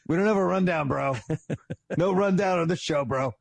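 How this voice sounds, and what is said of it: Imitates another person's voice. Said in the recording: “It's actually not a bad impression. It's not bad.”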